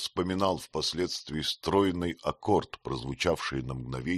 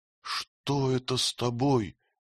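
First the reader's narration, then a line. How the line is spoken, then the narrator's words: Mother's worried question. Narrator (Russian): спросила мать встревоженным голосом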